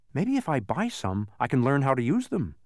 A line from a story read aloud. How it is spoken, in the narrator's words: said Milo eagerly